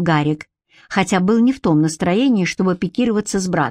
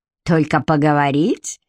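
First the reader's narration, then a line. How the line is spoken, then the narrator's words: Snorting, laughing, delighted. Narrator (Russian): фыркнул Хьюг и зашелся смехом, в восторге от собственного остроумия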